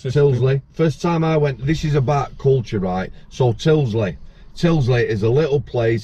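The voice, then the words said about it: Yorkshire accent. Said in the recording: “my Yorkshire accent”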